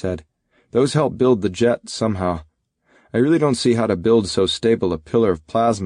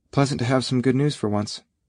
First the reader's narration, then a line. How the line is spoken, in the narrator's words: Red Wing said quietly